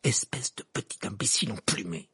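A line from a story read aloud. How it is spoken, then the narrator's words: Hissing through teeth. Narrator (French): siffla Ron entre ses dents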